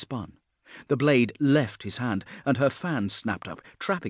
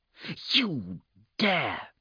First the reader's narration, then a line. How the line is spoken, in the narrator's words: she hissed